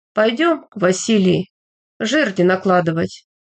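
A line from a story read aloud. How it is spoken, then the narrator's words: Ordinary voice. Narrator (Russian): Петр обычным голосом сказал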